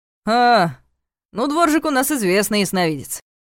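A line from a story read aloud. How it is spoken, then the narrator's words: Wry snort. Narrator (Russian): хмыкнул Ваня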